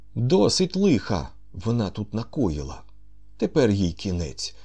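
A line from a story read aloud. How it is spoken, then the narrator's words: Exclaimed. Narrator (Ukrainian): вигукнув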